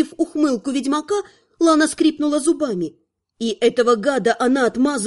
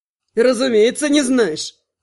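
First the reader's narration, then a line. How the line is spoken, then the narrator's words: Snorting. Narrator (Russian): фыркнул Кондрат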